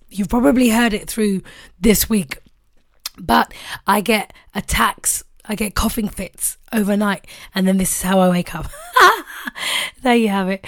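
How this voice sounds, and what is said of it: Hoarse, fading voice. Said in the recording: “Honestly, it is me. It's just that I'm losing my voice.”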